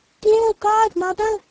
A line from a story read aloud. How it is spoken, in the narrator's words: he cried pitifully